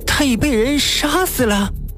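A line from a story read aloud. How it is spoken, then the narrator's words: Gasping, shocked cry. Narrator (Chinese): 宗离倒抽口冷气，惊叫起来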